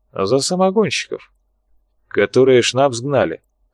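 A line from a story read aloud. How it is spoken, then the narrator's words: Chuckling. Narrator (Russian): хохотнул майор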